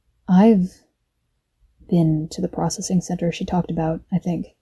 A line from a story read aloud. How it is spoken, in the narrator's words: Brian said, his voice quiet in Aisha's ear